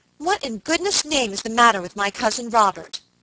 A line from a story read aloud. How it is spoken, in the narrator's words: exclaimed Miss Audley impatiently